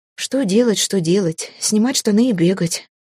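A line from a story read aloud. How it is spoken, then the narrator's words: Grim joke. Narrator (Russian): Мрачно пошутила я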